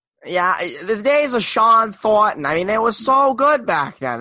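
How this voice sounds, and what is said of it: Weak put-on Boston radio caller accent. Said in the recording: “you have to do the accent, and you have to have like multiple mispronunciations is how you really get the proper radio caller impression down ... my Boston accent sucks”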